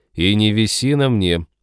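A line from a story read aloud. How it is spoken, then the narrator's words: Feigned grumbling. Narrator (Russian): проворчал киборг, делая вид, что ему такое, ну, ни чуточки не нравится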